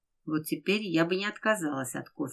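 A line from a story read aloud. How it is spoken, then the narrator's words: Plain. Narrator (Russian): сказала Кристина Федору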